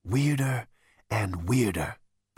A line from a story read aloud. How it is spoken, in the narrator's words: breathed Zaphod